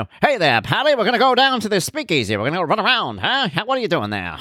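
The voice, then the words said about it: Old-fashioned 1950s TV accent. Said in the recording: “they talked in that old school kind of, you know, that accent ... the accents that they created for television and movies in order to appeal to a wider base of people in the 50s”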